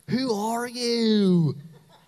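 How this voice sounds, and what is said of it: Thick put-on Southern US accent. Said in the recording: “in a really thick southern accent. ... Did I get it? That's pretty close.”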